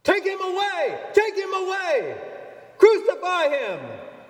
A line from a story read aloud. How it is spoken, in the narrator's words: they shouted